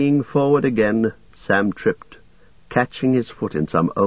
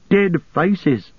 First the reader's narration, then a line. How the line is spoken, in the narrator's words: Gollum laughed